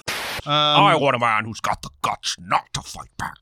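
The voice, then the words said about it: Imitates another person's voice. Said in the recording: “That's a great impression. ... That's another Harrison Ford victory lap.”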